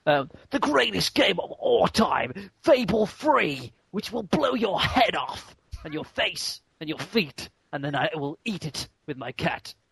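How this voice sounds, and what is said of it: Peter Molyneux impression. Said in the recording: “in your best Molyneux voice ... I can't remember how I do a Molyneux voice”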